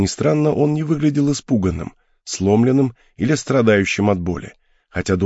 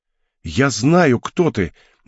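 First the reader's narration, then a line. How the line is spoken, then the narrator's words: Young man's sudden exclamation. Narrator (Russian): неожиданно воскликнул юноша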